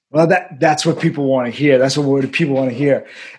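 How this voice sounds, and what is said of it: Queens Brooklyn New York accent. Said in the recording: “inner city New York kids. You can hear like the Queens Brooklyn accent coming out in the Long Island a little bit”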